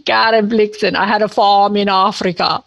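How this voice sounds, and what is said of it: Scandinavian accent, Meryl Streep impression. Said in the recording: “It's a Scandinavian accent.”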